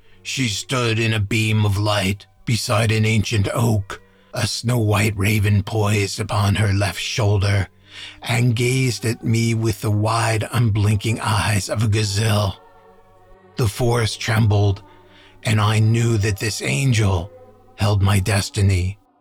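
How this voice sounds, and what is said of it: Deliberately bad imitated voice. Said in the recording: “my terrible impersonation of Kimbero's voice”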